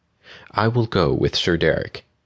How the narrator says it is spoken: Aurora said in her gentle voice

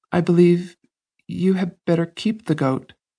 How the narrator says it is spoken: faltered Oyvind

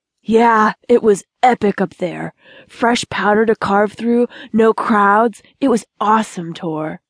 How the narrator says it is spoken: he said excitedly

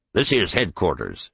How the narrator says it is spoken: said

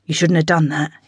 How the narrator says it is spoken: whispered

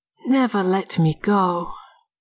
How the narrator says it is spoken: Sighing, she begged

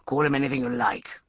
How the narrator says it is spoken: growled Emerson

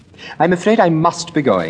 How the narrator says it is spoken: exclaimed Lady Henry

